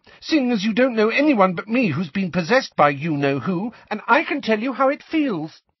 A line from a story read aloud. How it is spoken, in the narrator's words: said Ginny angrily